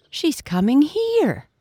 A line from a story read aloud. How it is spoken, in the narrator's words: the brown pigs cried